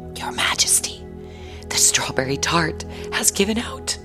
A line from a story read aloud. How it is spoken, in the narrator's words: the chief cook, looking rather pale and worried, whispered in her ear